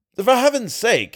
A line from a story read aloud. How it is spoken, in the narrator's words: cried with a breaking voice